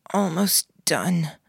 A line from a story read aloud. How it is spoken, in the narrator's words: I croaked the words